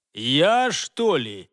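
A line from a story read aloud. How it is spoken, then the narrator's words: Grumbled. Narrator (Russian): пробурчал следопыт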